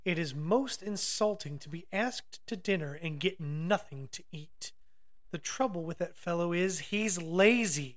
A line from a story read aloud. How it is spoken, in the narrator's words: said Muin crossly